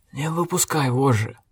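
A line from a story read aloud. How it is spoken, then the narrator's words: Muttered. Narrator (Russian): пробормотал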